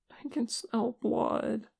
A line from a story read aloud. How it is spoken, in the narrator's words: Che whimpered